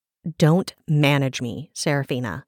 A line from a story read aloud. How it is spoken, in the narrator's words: Brenora snapped